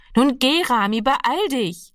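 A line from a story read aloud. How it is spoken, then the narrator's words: Calling out again. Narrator (German): rief ihm Annegret noch einmal zu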